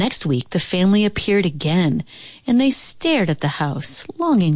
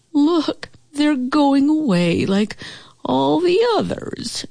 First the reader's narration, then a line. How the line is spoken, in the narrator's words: whined